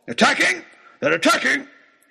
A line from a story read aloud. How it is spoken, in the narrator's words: he shouted